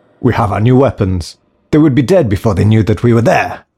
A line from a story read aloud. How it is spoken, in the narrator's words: shouted another